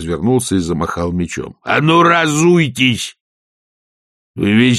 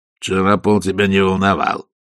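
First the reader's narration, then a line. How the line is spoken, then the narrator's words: Gruff mutter. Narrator (Russian): буркнул Раклет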